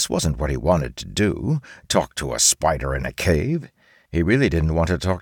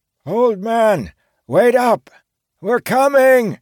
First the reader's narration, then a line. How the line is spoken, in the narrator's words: Red Baron's distant voice called out from behind him